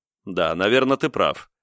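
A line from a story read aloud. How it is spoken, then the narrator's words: Plain. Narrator (Russian): сказал Борланд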